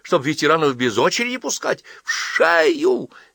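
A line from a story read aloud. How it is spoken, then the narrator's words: Shrill squeal. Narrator (Russian): визжал Оборотов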